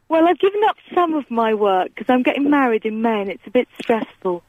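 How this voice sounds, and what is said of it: Husky, sore-throated voice. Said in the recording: “I've got a bit of a sore throat, so a bit of a husky voice going on ... I'm liking the husky voice”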